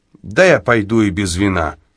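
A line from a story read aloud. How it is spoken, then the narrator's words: Plain. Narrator (Russian): сказал Тибуртин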